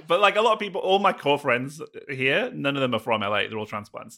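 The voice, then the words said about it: British accent. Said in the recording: “my accent here helps a lot... an English person, just speaking all Welsh”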